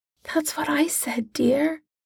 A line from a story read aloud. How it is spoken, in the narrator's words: Molly whispers